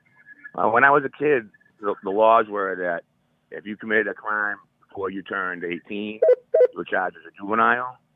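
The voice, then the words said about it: Northeastern US accent. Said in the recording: “I hear the 17. Accent, so I can narrow it down to Northeast. ... East Coast.”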